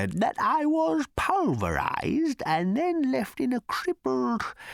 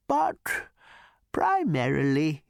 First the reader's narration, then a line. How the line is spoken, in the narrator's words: he said in his former wistful tone